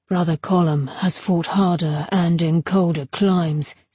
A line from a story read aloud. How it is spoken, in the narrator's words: said Silas calmly